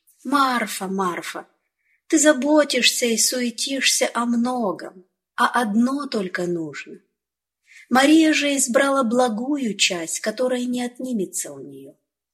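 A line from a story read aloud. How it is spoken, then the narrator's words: Gentle, patient. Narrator (Russian): Иисус мягко и терпеливо сказал ей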